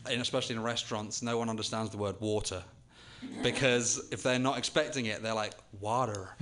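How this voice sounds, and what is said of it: Noticeable non-American accent. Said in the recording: “you have an accent”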